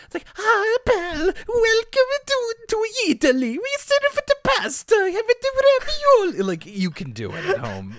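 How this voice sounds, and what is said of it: Exaggerated fake Italian character voice. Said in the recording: “the Pepe voice ... a little bit less high-pitched and squeaky ... Adam Sandler doing an Italian accent, which is to say, not an Italian accent at all”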